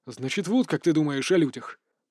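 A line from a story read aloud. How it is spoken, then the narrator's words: Angry, annoyed interruption. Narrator (Russian): Зло и раздосадованно перебил его Ван Шиэр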